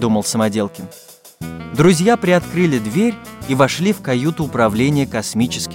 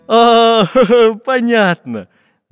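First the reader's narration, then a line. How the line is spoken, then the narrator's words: Laughing. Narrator (Russian): засмеялся карандаш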